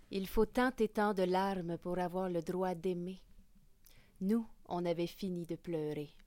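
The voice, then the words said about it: Quoting a stage character's accent. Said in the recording (French): “Je vais citer une phrase du spectacle Ciseaux. Avec l'accent aussi du personnage”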